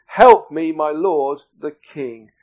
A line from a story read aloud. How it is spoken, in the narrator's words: a woman cried out to him